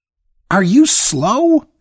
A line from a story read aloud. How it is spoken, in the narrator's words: she screamed